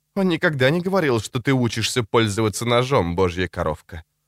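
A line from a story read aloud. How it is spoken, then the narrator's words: Calm. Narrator (Russian): сказал он спокойно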